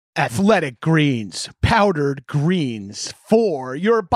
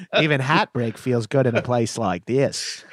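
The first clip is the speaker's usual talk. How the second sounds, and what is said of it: Mock Australian accent. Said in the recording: “mocking an Aussie accent”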